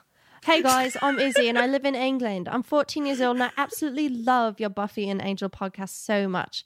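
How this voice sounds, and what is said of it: Put-on British accent. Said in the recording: “I want you to do a British accent”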